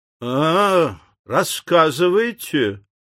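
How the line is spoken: Disbelieving drawl. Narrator (Russian): недоверчиво протянул Морган

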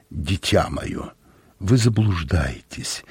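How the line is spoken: Soft, gentle. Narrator (Russian): мягко произнес Дю Барнсток

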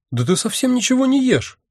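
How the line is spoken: Sudden exclamation. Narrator (Russian): внезапно воскликнула она

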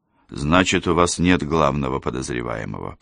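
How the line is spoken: Mutter. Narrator (Russian): пробормотал он

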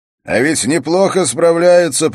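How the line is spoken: Shout. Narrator (Russian): прокричал Свенгл

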